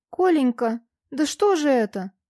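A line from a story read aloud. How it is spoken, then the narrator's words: Exclaimed. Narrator (Russian): воскликнула Вера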